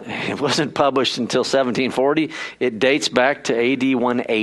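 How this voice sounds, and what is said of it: Usual voice. Nothing is said of it.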